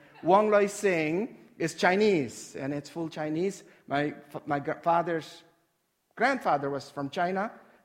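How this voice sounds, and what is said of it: Noticeable non-native English accent. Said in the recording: “in case you are still trying to get used to my accent”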